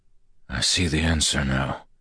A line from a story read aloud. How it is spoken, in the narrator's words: he whispered